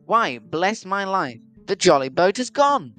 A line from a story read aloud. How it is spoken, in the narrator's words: exclaimed the sailor